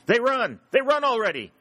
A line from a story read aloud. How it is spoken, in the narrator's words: cried Sherburne